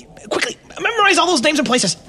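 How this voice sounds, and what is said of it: Talking very fast. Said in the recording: “Why are you talking so fast?”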